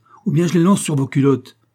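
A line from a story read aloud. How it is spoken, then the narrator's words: Master shouting. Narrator (French): s'écria leur maître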